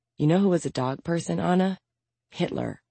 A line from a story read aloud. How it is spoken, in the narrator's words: Maya muttered